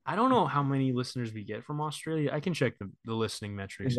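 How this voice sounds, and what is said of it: Usual voice. Nothing is said of it.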